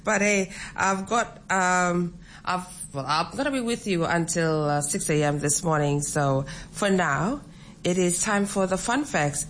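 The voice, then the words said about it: Slightly out of breath. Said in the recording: “I'm actually jiving in the studio. That's why I'm probably running out of breath.”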